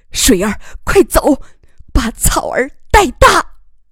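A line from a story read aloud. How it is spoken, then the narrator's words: Shouting. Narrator (Chinese): 丈夫喊道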